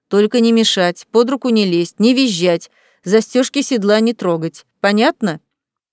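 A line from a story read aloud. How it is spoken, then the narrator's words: Stern. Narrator (Russian): строго добавил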